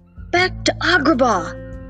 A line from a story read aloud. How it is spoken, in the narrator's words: shouted